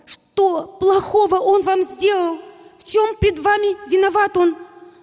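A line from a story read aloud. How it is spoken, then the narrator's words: Shouting again. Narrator (Russian): хотелось крикнуть снова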